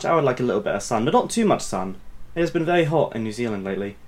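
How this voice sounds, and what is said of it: Speaks with a noticeable accent. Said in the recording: “With your accent, it sounds like you said just white.”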